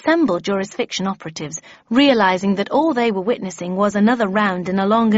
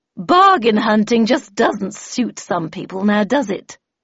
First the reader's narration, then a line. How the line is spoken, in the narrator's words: Miss Havisham, who said in an unnecessarily provocative tone